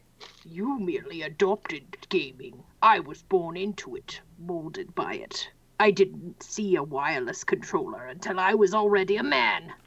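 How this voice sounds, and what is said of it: Imitates the movie villain Bane. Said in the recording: “my Bane impression ... You sound like Lunar from the geek dub of Sailor Moon trying to be Bane.”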